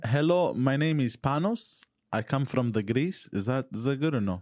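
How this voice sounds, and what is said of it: Exaggerated put-on Greek accent. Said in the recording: “Can you imitate a Greek accent? ... Yours is way overcooked. You're one level away from being, hello, my friend.”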